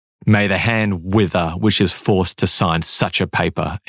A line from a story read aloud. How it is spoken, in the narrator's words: he famously spat